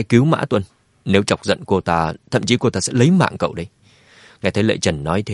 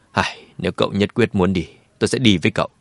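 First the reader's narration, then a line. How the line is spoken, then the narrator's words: Sighing. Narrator (Vietnamese): Lệ Trần thở dài nói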